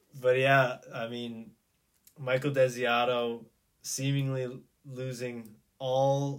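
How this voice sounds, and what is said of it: Usual voice. Nothing is said of it.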